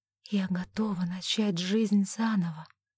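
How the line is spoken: Quiet and sincere. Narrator (Russian): тихо сказала она, нисколько не кривя душой

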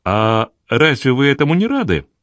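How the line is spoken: Cheerful woman's reply. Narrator (Russian): весело ответила Гвендолин

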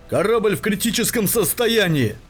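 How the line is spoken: Shouted. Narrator (Russian): выкрикнул Шароукин

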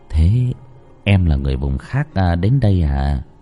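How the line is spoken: Soft murmur. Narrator (Vietnamese): Tú thủ thỉ

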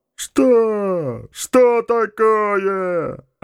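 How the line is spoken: Desperate shout. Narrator (Russian): отчаянно крикнул Джакс

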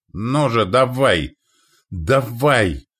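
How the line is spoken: Shouting. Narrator (Russian): прокричал он

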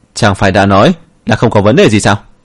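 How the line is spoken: Angry shout. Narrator (Vietnamese): Nhiếp Vân quát lên

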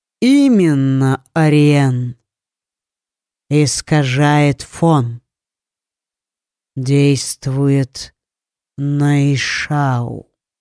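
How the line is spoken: Drawling. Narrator (Russian): протянул Лид

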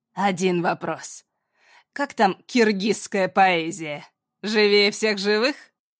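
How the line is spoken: Ringing, near-hysterical laughter. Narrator (Russian): захохотала звонко на грани истерики

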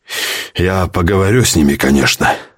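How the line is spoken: Sigh. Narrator (Russian): вздохнул бригадир

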